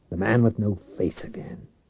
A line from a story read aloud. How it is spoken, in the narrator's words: Reich growled